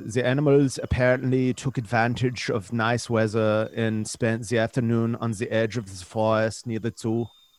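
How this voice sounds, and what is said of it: Put-on German accent. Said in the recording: “do you guys mind if I do it in a German accent?”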